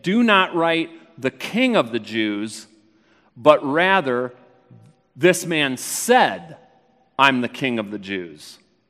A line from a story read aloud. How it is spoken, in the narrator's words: Pilate answered